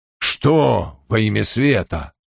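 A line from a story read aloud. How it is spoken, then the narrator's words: Grumbled. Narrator (Russian): пробурчал Том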